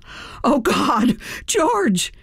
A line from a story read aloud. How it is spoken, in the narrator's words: heard Stephanie, a fierce competitor in her own right, yell